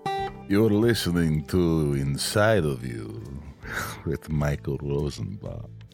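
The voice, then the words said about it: Creepy put-on accent. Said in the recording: “that accent. ... It's creepy.”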